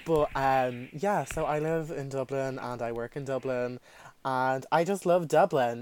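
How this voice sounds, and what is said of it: South Dublin Irish accent. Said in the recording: “as you can tell by my accent, I do live in Dublin, south side.”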